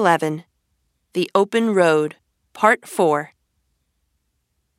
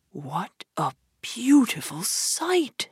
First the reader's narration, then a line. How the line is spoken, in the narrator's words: Toad murmured